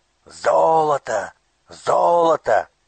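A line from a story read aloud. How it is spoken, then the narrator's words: Robbers shouting. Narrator (Russian): кричали разбойники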